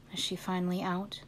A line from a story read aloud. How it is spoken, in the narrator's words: he whispered